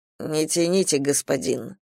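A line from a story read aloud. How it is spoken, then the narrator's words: Mumbled. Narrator (Russian): пробормотал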